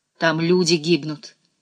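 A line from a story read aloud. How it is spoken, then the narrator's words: Curt hostile retort. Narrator (Russian): отрезала Ирена таким же враждебным тоном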